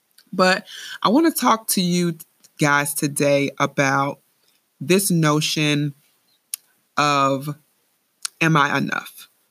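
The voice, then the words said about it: Raspy voice. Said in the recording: “I'm getting over a cold, so my voice is a little bit raspy”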